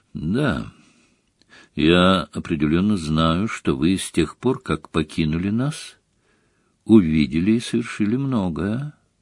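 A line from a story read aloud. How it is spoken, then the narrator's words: Quiet. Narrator (Russian): негромко произнес он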